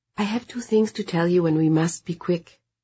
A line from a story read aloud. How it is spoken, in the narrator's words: Brit said in a soft voice